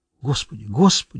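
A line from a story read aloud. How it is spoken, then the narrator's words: Terrified muttering. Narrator (Russian): в ужасе пробормотала Карен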